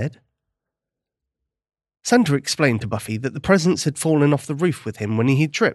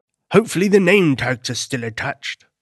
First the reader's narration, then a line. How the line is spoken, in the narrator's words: Santa said